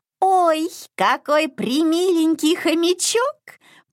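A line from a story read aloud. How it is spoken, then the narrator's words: Squeaky voice. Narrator (Russian): пропищала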